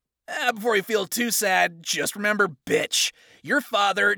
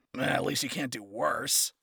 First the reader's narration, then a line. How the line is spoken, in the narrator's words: he mumbled, rambling now